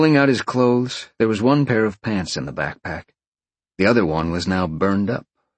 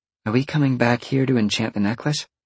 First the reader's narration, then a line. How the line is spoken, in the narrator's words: Roxy asked